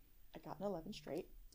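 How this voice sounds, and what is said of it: Whispering. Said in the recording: “I don't know why you're whispering.”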